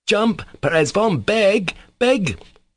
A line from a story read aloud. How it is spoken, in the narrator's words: shouted Kolya